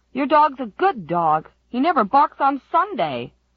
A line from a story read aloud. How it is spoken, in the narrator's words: Wally Flagg shouted